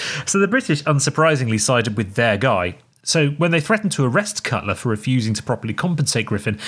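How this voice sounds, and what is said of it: Usual voice. Nothing is said of it.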